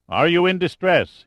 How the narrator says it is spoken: he asked, his voice booming over the water

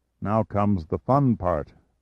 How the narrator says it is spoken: Pitt uttered weakly

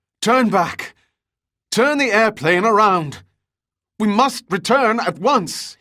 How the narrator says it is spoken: cried

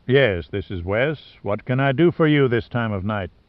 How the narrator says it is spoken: The voice had a soft southern drawl

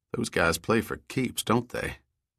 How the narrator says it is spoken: Lowering his voice, added

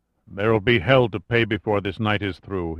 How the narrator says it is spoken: he muttered

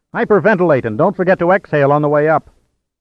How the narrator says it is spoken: As the water surged around the frame and into the compartment, Pitt shouted

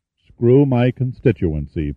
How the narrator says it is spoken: Pitt repeated solemnly

